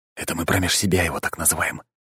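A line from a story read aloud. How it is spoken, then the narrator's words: Whispered in ear. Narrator (Russian): шепнул супруге на ухо Руслан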